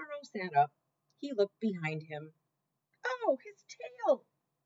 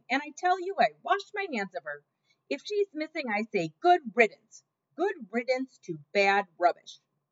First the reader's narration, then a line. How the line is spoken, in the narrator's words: Louise was shouting